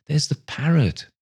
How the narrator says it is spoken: cried Scrooge

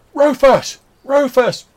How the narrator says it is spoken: Clarence, who stood near the gate, he shouts

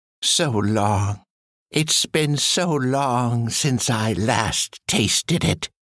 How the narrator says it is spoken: brought out, cackling

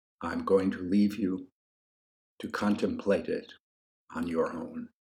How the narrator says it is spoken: said in a hushed and reverent voice

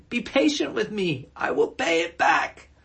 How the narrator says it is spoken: His fellow servant fell to his knees and begged him

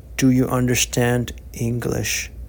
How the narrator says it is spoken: gently inquired

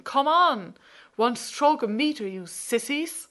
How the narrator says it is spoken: The cars honk louder and Martin continues shouting

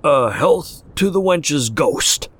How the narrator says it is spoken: he bellowed

